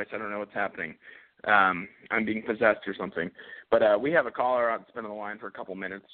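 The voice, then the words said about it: Hoarse, failing voice. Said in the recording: “man, I am losing my voice”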